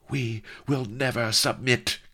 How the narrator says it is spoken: cried Vanity

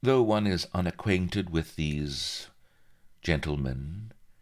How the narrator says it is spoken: she drawled

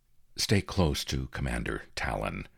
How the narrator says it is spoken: I murmured to Frieder

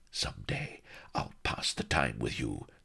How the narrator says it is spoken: snarled Sheba, her bosom heaving like anything

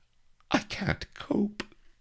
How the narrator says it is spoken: whimpered Vanity

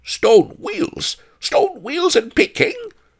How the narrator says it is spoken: a rasping voice exclaimed

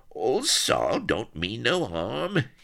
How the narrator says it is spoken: he whined

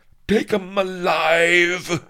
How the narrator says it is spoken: hollered Lardo from the back of the press

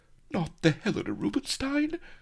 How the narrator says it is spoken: she quavered

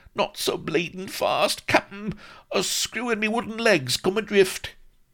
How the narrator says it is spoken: a perspiring dwarf, who gasped sotto voce

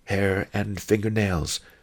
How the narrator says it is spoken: Master Li said quietly

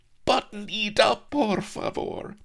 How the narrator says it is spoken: sobbed Donna Mellifluo, distraught

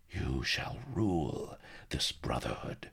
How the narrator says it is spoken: Sheba murmured

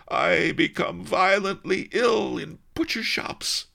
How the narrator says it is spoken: he howled

